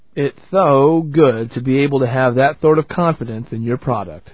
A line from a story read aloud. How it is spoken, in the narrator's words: He laughed and said